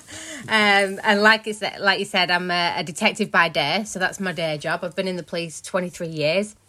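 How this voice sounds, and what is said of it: Bolton Lancashire accent. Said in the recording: “I'm Bolton, which used to be Lancashire. So I'm great in Manchester. ... I love the accent. Great accent.”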